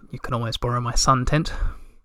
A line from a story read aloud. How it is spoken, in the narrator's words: he said quite quietly